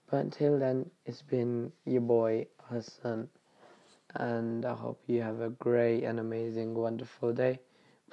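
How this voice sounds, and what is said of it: Sick-sounding voice. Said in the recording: “Sorry about my voice. As you can tell, the bacterial infection stayed.”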